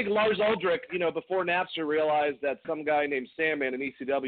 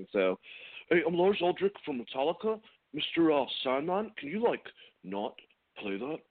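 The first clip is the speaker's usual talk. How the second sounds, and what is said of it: Poor imitation of another person's voice. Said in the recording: “terrible Lars impression”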